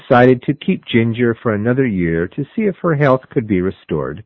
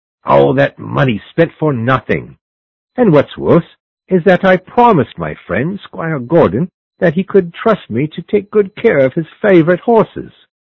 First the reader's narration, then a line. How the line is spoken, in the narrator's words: he said to his driver angrily